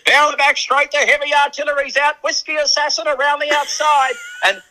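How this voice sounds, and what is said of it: Imitates a race caller's voice. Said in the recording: “I'll do my best Ronnie Hawkswell impersonation here.”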